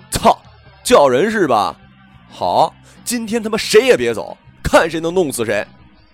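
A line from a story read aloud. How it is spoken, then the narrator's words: Angry drunken shouting. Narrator (Chinese): 我也喝了几瓶啤酒，有些火大，……跟他对喊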